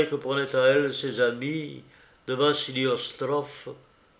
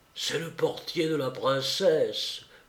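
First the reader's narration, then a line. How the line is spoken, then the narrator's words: Low voice. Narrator (French): dit à voix basse le marchand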